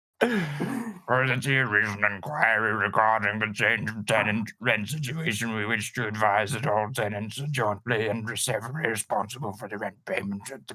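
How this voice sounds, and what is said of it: Character voice of a landlord. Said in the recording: “Should I do a voice? ... do a voice ... It's me, the landlord.”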